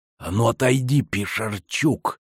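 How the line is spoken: Sinister lisp. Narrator (Russian): зловеще прошепелявил он

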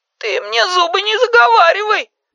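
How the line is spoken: Tearful but livelier. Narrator (Russian): Сказала Майка сквозь слезы, но уже бодрее

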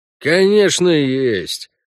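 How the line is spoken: Grumbling from inside house. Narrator (Russian): проворчал Дюша из дома

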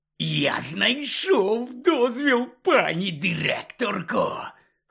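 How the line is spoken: Hoarse announcement. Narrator (Ukrainian): хрипло повідомив він

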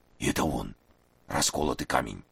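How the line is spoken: Hoarse rasp. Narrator (Russian): прохрипел Маса

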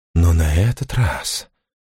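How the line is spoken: Hissing. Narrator (Russian): прошипел он

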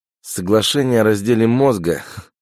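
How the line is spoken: Snorting. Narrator (Russian): хмыкнул Иван

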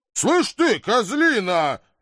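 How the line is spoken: Irritated bark. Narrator (Russian): рявкнул я, заводясь, неизвестно с чего

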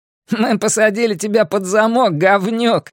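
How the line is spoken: Laughing, another voice. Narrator (Russian): рассмеялся еще один голос

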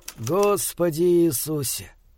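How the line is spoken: Moaning. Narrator (Russian): простонал Йен

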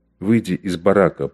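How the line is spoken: Whisper. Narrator (Russian): прошептал он Бергеру

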